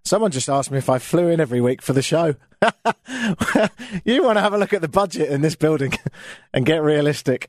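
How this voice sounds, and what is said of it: British accent, like Oliver Twist character. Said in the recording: “I've got an accent ... I'm always going to have this. I can't get rid of it ... I know I sound like some sort of character from Oliver Twist”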